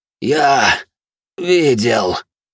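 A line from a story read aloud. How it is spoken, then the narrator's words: Furious rasp. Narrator (Russian): прохрипел яростный, как пламя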